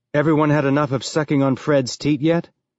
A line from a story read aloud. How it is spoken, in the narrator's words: he said